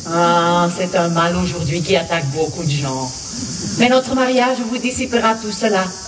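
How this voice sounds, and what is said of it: Belgian French accent. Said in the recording (French): “Molière avec l'accent belge”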